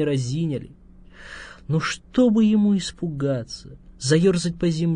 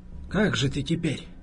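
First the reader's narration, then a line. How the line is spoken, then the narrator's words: Quiet man speaking. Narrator (Russian): тихо сказал квартальный дядя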